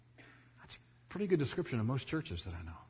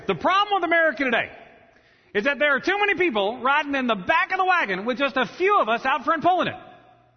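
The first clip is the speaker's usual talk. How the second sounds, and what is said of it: Ross Perot impression. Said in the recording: “here's my Ross Perot ... that's pretty good ... doing an impression ... So again, Ross Perot right here.”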